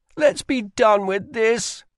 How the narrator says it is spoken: whined Rye

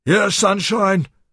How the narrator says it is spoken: a voice bellowed

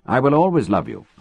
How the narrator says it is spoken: I said

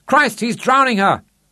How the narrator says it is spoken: He shouted aloud

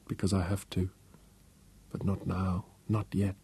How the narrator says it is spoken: she whispered

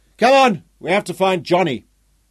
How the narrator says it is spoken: shouted to Jock

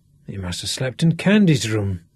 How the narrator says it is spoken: Sean muttered

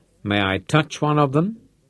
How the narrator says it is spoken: asked

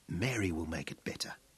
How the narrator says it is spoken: whispered with husky intensity

